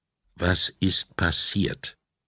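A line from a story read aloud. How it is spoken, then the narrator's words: Calm question. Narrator (German): fragte er ruhig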